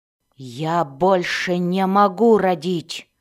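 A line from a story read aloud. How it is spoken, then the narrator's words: Growled reply. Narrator (Russian): зарычала в ответ Мэлис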